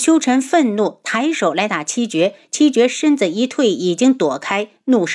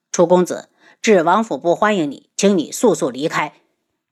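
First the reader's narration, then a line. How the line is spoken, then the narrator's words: Cold. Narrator (Chinese): 冷声道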